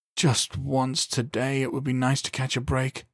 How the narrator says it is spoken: Calvin groaned

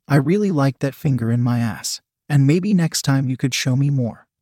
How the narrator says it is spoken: said sweetly

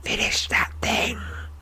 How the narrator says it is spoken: He says, his voice barely above a whisper

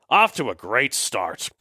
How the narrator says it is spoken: Cobblewood grumbled

